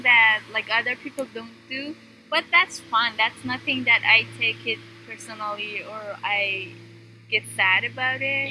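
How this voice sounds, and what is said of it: Iranian accent, lots of pitch changes. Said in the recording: “my accent that oh you talk very like ups and downs you have like change your tone a lot i feel like we feel like it's kind of an iranian thing”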